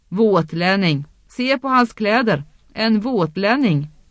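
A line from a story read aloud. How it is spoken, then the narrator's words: Shouting. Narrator (Swedish): ropade han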